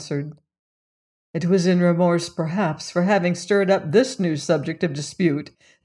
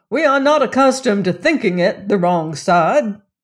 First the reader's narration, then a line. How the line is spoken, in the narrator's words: cried